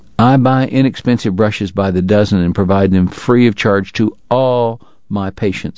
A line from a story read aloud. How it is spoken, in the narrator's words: he said firmly